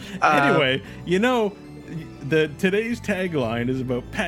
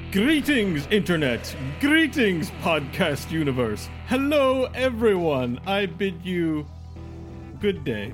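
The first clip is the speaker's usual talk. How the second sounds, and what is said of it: Grand theatrical stage voice. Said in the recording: “you have your radio voice, but that was like your theater voice ... Yeah, that was my theater voice. And Masterpiece Theater.”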